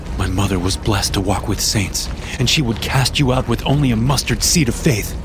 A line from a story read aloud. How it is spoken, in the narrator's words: I snapped